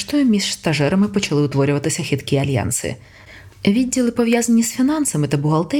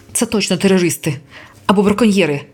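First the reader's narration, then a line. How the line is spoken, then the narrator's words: Barking, female. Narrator (Ukrainian): гаркнула вона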